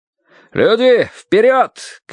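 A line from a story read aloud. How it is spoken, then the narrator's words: Shouted. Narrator (Russian): крикнул кто-то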